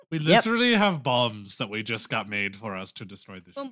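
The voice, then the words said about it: Put-on French, slightly Italian accent. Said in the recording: “What is this accent? I do not know, but we are like French, but also slightly Italian.”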